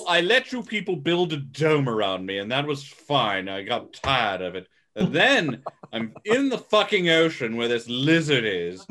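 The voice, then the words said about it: Put-on British accent, character voice. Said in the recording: “Why does he have Chained a British accent? ... why does Kong have to have a British accent? Yeah, what's with the British accent?”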